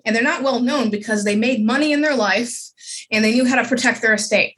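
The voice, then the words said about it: Noticeable accent. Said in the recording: “I still hear your accent ... I can definitely hear yours”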